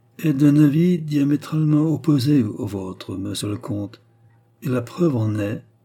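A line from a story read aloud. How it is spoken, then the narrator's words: Very coldly. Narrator (French): acheva très froidement Sir Arthur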